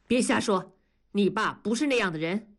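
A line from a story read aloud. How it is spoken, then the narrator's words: Stern rebuke. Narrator (Chinese): 文丽厉声地制止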